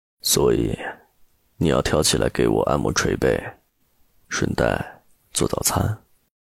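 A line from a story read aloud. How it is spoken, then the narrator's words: Flat, casual. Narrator (Chinese): 陆漠北淡淡道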